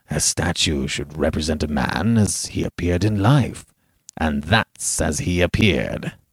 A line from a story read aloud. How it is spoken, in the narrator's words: Lord Uplandtowers smiled grimly, and said